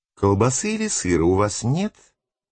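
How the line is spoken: Uncertain repeated question. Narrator (Russian): Неуверенно повторил свой вопрос отец Олег

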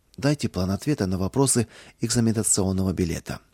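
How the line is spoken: Quiet request. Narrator (Russian): Кузнецов тихо попросил

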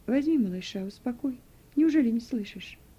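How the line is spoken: Calm. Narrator (Russian): спокойно сказала Вера

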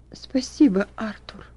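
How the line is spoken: Girl smiling through tears. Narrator (Russian): ответила девочка, улыбаясь сквозь слезы

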